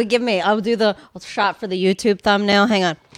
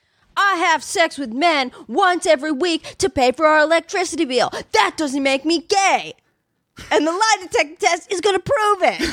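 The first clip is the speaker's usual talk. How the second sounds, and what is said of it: Impression of a talk-show guest. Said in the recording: “It's Maury. It's my impression of a Maury guest.”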